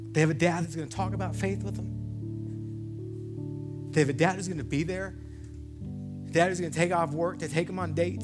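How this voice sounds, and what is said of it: Emotional, voice choked up. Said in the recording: “Sorry, I'm getting emotional.”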